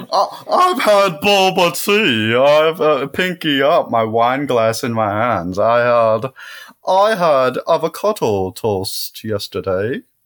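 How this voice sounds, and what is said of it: Put-on fancy posh voice. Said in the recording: “what voice is that? What was that voice?... It's just a fancy.”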